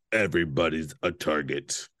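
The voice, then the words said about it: Bad put-on Austrian accent. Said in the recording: “In the worst Austrian accent I've ever done in my life”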